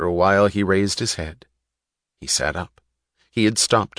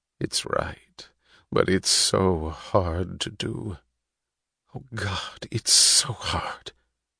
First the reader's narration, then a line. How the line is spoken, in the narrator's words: He moaned